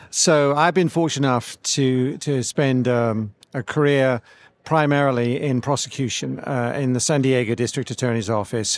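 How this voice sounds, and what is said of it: English accent. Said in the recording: “It sounds like you have a Boston accent. Maybe in my ear. ... it's the old England accent, not the new England accent”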